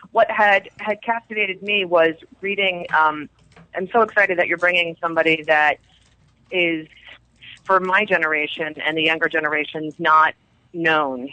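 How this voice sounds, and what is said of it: Sick, strange-sounding voice. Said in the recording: “I'm really sick, so my voice sounds a little strange today”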